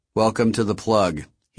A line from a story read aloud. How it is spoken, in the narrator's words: he said in a flat monotone